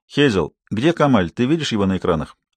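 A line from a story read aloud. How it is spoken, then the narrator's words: Calm. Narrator (Russian): он спокойно сказал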